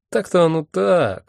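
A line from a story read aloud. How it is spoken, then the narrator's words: Confused drawl. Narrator (Russian): растерянно протянул Мэсэн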